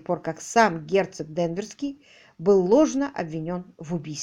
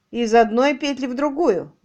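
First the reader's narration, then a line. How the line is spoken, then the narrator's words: Loud laughing. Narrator (Russian): громко рассмеялся Харингей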